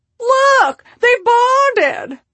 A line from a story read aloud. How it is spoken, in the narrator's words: Shelley exclaims